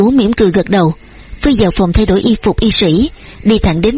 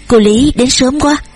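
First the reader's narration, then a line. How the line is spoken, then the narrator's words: Smiling. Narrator (Vietnamese): Lê Dịch Phi cũng mỉm cười nói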